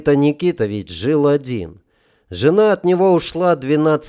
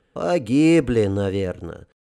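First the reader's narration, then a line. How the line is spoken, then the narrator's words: Sighing. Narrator (Russian): вздохнул Горёнышев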